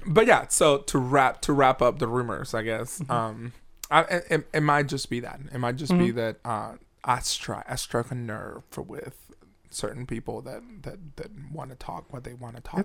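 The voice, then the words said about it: Slightly hoarse voice. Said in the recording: “I'm a little hoarse right now”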